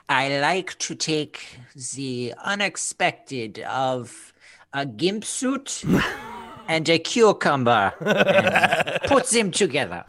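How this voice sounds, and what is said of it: Impression of H.R. Giger. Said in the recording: “your Giger impression. You just go, oh, Giger.”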